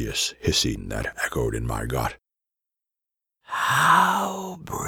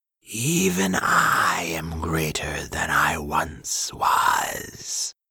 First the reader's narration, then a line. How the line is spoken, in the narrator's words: she rasped